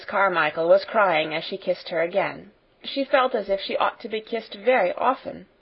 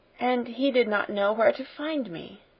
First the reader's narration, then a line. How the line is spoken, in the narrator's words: murmured Sarah